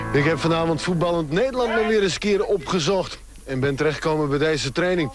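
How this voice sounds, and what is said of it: Strong Frisian accent. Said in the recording (Dutch): “sprekend met een stevig Fries accent”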